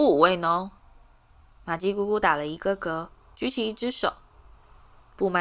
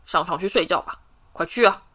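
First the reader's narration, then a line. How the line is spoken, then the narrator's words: Sharp stern shout. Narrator (Chinese): 他对着哈利厉声喝道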